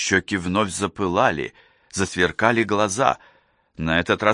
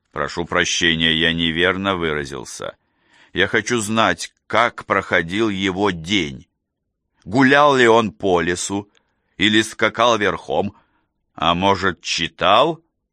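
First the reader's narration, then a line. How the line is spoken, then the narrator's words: Calm after anger. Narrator (Russian): Гнев отступил, и ответ прозвучал спокойно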